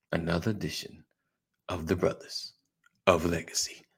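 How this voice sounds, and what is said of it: Announcer voice. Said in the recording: “working on my announcer voice”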